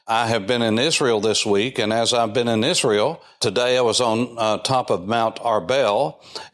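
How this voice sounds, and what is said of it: Southern Appalachian American accent. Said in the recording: “Are you from the South in the United States?... Your accent, your dialectos, your dialect is very distinct and soothing to my ears... this is pure Southern Appalachia, because Southern is a dialect. Appalachian is another dialect that is a subset of Southern”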